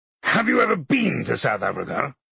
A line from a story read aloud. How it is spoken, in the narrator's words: MacLeod roared at me